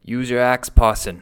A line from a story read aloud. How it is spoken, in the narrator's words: cried Wyke